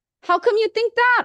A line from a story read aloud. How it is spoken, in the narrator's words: I asked